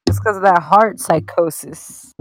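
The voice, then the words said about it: Slurred, drunk-sounding speech. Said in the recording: “Why do I sound like a drunk uncle? I'm sober right now.”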